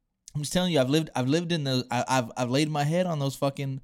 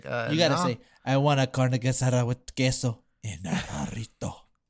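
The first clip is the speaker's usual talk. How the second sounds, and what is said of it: Put-on accent. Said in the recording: “people are laughing at your accent”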